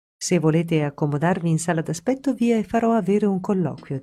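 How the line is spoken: Plain. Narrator (Italian): disse lei

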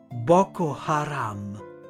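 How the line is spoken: Whispered in growing astonishment. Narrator (Italian): Sempre più sbalordito sussurrai

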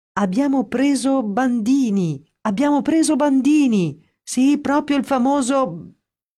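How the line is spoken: Elated shouting. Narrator (Italian): a gridare tutto esaltato

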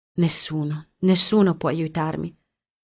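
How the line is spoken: Sobbing. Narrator (Italian): singhiozzò Daria

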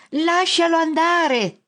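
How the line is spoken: Shouting. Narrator (Italian): grida

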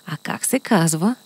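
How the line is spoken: Quiet whisper in ear. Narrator (Bulgarian): тихо го попитаха на ухо

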